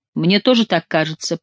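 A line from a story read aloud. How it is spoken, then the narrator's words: Mumble. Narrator (Russian): промямлил герцог Анжуйский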